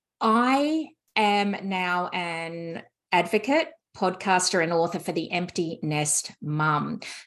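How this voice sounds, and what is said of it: Australian accent. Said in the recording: “as you can tell from my accent, I am not a native of the US. I'm from Australia, Sydney”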